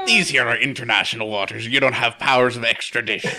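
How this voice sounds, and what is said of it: Put-on pirate accent, slightly Irish. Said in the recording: “a little Irish there. ... I don't know what a pirate accent is.”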